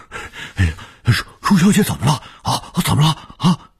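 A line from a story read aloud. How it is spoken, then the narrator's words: Urgent old man. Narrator (Chinese): 卢老头 急切地说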